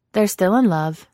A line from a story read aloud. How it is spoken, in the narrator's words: the dog said